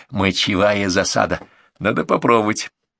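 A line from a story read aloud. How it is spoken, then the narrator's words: Chuckle, conspiratorial whisper. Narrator (Russian): хохотнул Артемыч, заговорчески пошептал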